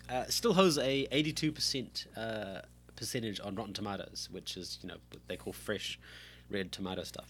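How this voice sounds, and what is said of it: Croaky, hoarse voice. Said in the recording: “I seem to have some sort of sinus and throat issue, so if you can hear weird sounds in my mouth, that's a lozenge, and my voice is croaky”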